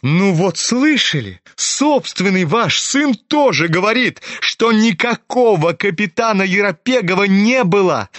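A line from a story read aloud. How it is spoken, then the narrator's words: Laughing shout. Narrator (Russian): Ипполит расхохотался на ответ Гани и прокричал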